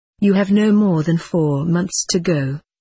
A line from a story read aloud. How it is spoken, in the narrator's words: said